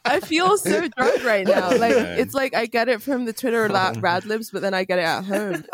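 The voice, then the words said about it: British accent. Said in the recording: “the British accent gets accentuated ... my very normal accent”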